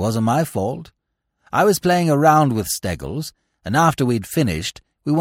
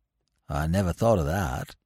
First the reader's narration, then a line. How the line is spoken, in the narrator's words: said gloomily